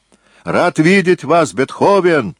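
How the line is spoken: Shouted. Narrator (Russian): прокричал

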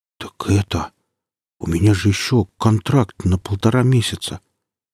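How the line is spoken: Very quiet. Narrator (Russian): Совсем тихо проговорил толмач

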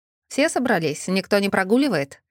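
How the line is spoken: Wry snort. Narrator (Russian): хмыкнул Кейман

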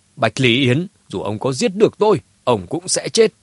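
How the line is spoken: Defiant loud laughter. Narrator (Vietnamese): Phùng Chí Viễn không hề sợ hãi, đột nhiên ha hả cười lớn

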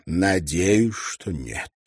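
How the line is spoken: Mumbling. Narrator (Russian): пробормотала мисс Гард

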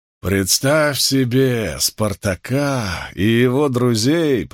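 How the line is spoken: Drawling. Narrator (Russian): протянул Котис

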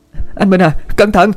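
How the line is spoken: Frantic scream. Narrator (Vietnamese): tiếng hét thất thanh của ai đó

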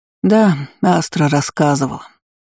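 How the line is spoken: Sad. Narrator (Russian): печально кивнула Дисси

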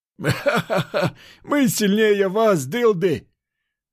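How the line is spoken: Laughing spearman. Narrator (Russian): Смеялся один из копейщиков

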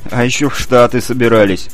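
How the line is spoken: Laughing. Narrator (Russian): пограничник рассмеялся

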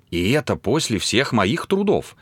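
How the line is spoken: Exclamation. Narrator (Russian): воскликнула она

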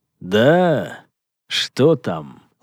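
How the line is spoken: Sly drawl. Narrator (Russian): лукаво протянул его собеседник

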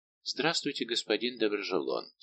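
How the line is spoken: Plain. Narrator (Russian): сказала она

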